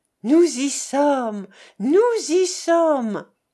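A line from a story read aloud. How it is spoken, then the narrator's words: Exclaimed with satisfied sigh. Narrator (French): s'écria Jovita en poussant un tel soupir de satisfaction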